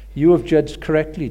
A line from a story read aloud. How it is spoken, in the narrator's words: Jesus said